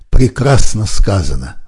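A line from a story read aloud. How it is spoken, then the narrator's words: Exclamation. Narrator (Russian): воскликнул Вернер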